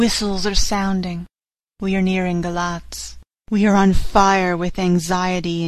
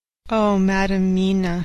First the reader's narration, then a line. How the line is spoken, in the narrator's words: he said sadly